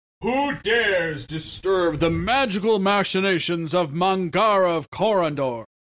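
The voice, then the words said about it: Loud booming character voice. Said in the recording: “there came a loud booming voice. No one's going to do the voice?”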